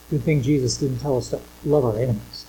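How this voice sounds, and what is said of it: Sarcastic delivery. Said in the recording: “that was sarcasm. ... You need to have your sarcasm meter looked at.”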